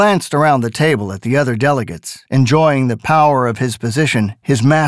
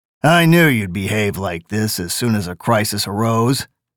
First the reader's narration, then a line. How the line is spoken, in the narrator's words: Gabriel Burns said bitterly